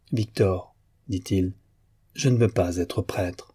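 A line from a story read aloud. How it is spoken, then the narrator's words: Firm, deliberately restrained voice. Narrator (French): d'une voix ferme, quoique modérée à dessein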